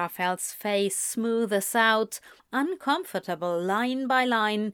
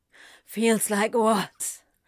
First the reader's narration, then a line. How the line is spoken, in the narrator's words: Crowley gasps